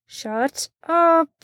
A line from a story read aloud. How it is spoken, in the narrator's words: through clenched teeth